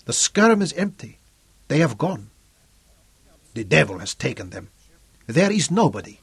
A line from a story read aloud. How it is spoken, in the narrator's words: Camacho growled at them